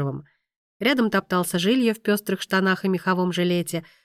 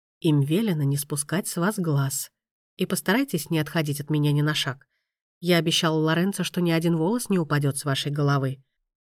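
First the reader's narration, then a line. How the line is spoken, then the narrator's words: Close whisper. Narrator (Russian): маэстро, чуть склонившись к ее уху, прошептал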